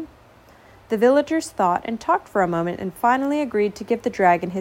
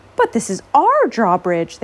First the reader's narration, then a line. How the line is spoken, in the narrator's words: they cried